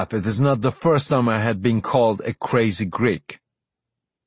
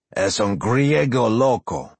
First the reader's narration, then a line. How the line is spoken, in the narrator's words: Alfonso says